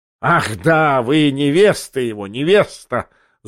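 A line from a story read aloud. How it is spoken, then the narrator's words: Furious spiteful laughter. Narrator (Russian): злобно и неистово захохотал Бьоринг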